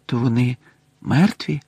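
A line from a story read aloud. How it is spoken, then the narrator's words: Quiet question. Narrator (Ukrainian): тихо спитав Гаррі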